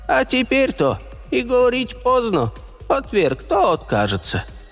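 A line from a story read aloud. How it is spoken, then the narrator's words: Hollow strange voice. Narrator (Russian): говорила она глухим чужим голосом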